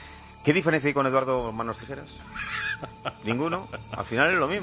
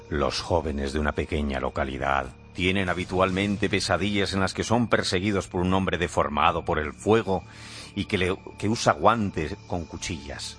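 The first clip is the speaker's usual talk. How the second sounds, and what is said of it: Spooky scary storytelling voice. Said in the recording (Spanish): “poner voz de miedo”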